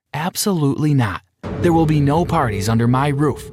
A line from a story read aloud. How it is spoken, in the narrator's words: calmly stated